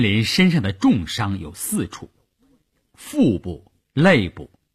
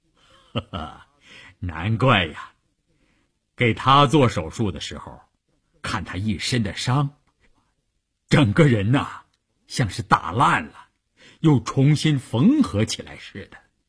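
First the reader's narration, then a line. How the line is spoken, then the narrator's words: Laughing. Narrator (Chinese): 医生听完他的话，笑着说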